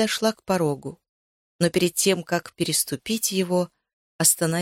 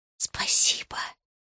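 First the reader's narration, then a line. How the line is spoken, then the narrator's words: Whispered. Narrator (Russian): прошептала я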